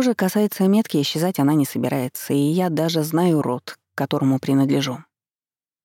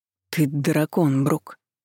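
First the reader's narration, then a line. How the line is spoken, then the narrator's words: Strained, forced out. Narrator (Russian): выдавил из себя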